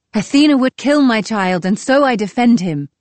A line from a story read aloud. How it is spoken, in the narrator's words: I cried